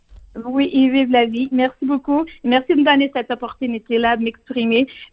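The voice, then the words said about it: French spoken with a charming foreign accent. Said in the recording (French): “Même avec mon accent ... vous parlez français avec un accent qui est absolument charmant”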